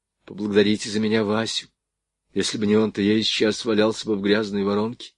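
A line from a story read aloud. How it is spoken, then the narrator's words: Quiet speech. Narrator (Russian): тихонько проговорил Звонарев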